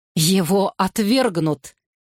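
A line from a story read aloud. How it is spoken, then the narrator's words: Angry objection. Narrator (Russian): сердито возразила Кейт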